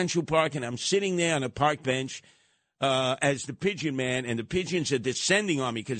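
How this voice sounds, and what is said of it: Usual voice. Nothing is said of it.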